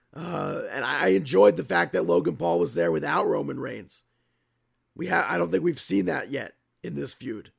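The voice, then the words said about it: Rough, ill-sounding voice. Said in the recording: “My voice gets worse and worse throughout this show and gets better and worse. COVID sucks.”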